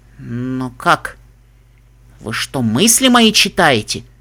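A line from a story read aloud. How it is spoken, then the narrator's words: Amazed whisper. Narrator (Russian): Изумленно прошептала единорожка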